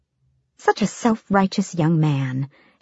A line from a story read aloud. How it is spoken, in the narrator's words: she cooed